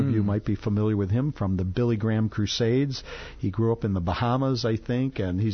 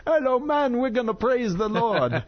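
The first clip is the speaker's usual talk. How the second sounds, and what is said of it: Attempted Bahamian accent. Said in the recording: “do you have a Bahama accent or something you can help me out here?”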